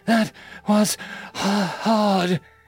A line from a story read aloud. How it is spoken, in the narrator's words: she said in between her panting